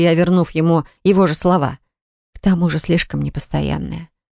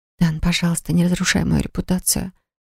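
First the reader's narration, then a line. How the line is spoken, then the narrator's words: Quiet whisper. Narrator (Russian): прошептала тихо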